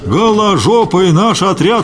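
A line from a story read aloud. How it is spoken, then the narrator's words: Crowd yelling. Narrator (Russian): вопила колонна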